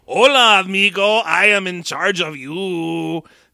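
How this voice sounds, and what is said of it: Mock Mexican accent impression. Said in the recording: “impressions ... Are you straight up Frito Banditoing your way into this movie? ... Is that a Cheech impression?”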